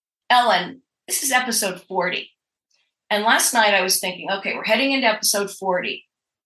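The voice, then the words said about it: Weak, strained voice from illness. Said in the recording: “My voice is not so great today. I've been sick... without a voice for nearly 3 weeks.”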